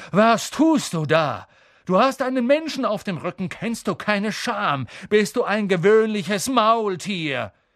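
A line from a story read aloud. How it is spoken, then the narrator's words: Thundering. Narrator (German): donnerte Bane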